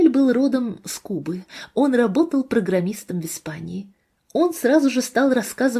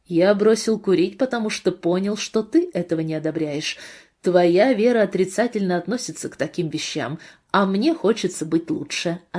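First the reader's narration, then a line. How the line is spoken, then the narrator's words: Plain. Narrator (Russian): ответил мой друг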